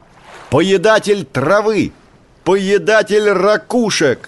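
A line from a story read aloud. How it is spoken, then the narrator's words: Louder shout. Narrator (Russian): Котик закричал еще громче прежнего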